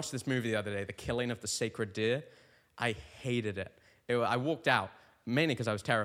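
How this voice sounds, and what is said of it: Usual voice. Nothing is said of it.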